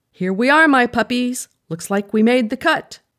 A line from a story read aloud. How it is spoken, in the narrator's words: said cheerfully, attempting to diffuse the mood